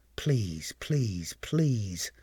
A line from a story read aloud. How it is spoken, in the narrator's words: Uehara muttered to himself as he sat there on tenterhooks